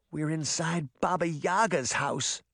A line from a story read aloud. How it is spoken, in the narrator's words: Sabrina croaked